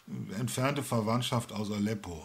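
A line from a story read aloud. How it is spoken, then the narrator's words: Plain. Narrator (German): antwortete der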